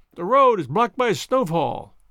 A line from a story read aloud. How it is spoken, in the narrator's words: cried